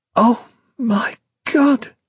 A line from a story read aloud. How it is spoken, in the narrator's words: she exclaimed